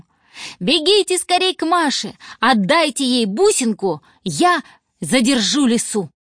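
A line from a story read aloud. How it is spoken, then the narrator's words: Shouting. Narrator (Russian): закричал он своим друзьям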